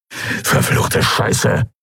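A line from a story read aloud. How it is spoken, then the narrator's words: Hiss. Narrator (German): zischte Urdrak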